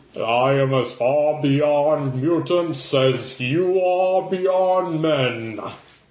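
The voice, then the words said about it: Overly educated cartoon villain voice. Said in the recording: “he always goes into that, like, overly educated accent that I've gotten from the cartoon series”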